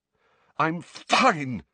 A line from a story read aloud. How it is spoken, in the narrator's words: Harry choked, shaking uncontrollably